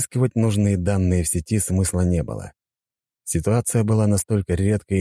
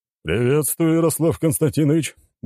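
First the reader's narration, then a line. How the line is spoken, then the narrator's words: Cheerful. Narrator (Russian): бодро ответил барон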